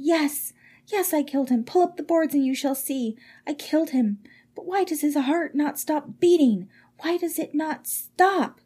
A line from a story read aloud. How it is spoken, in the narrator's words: cried